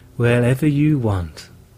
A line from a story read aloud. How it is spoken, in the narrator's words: replied Margan in a reassuring tone